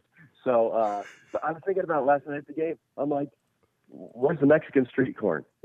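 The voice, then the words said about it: Rough voice from a cold. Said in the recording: “my voice is a little trash, but because I've got a stupid cold”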